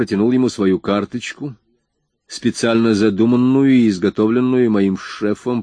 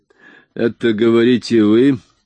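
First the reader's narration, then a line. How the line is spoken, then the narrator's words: Suspicious grumbling. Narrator (Russian): пробурчал Вольф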